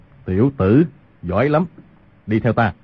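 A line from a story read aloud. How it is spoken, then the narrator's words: Lowered voice. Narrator (Vietnamese): Quan Dược Sư hạ giọng nói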